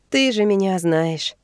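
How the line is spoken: Tired, smiling. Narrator (Russian): устало улыбается Ади

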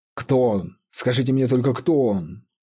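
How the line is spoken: Exclaiming. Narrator (Russian): воскликнул Ричард Редмайн

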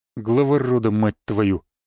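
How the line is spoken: Grumbling. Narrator (Russian): пробурчал он

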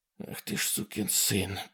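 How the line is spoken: Muttered. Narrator (Russian): пробормотал Ситерстон

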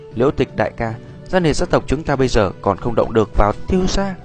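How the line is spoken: Sigh, resigned soft laugh. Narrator (Vietnamese): Thở dài một tiếng, Ra điện áo đành phải cười khẽ nói

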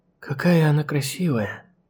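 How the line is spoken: Soft whisper. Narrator (Russian): тихо прошептала Чикахо

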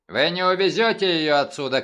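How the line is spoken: Shouted. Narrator (Russian): крикнул он

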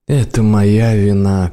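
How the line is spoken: Sad. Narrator (Russian): печально проговорил он

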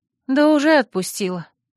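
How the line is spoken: Sighing. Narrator (Russian): вздохнула я, понимая, что не могу удержать здесь Манефу, как бы мне этого ни хотелось

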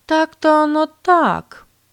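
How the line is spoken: Drawled. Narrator (Russian): протянула Катрина

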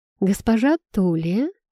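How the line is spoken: Silky, insinuating. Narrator (Russian): вкрадчиво произнес принц

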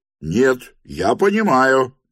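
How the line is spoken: Shouted. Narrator (Russian): крикнул третий

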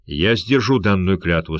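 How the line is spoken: Solemn voice. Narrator (Russian): сказал Сердар торжественным голосом

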